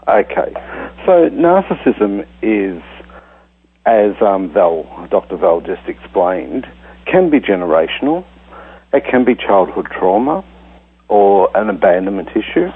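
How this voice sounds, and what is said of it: Australian accent. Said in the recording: “we love the accent. We always love Australians' accents”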